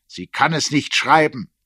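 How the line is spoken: Sharp. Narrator (German): sagte er scharf

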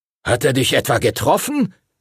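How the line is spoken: Called out. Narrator (German): rief Master Duncan

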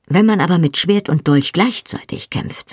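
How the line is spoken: Plain. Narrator (German): sagte er

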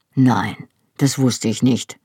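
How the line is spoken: Quiet answer. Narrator (German): antwortete er leise

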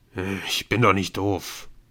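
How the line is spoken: Grumbling. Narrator (German): brummte Speedy

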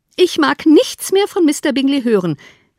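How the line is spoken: Called out. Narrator (German): rief Mrs

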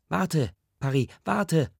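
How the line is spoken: Calling out. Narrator (German): Paris Ma ruft

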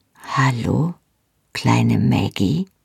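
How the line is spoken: Tender whisper. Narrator (German): flüsterte er

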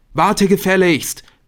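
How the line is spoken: Called out. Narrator (German): rief er

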